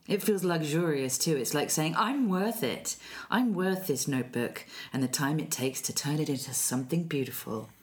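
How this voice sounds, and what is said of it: Sexy, sultry voice. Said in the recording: “You just did it in such a sexy voice.”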